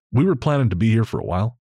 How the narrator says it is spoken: I said

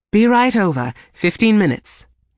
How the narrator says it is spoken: he said brightly

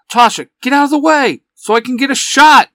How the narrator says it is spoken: shouts

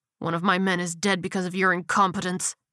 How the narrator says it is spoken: he growled

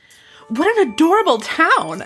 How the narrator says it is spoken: Jessica cried

